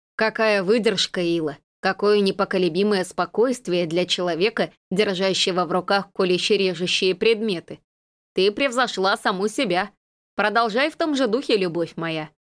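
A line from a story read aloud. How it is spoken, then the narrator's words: Snort. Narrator (Russian): Элайн фыркнула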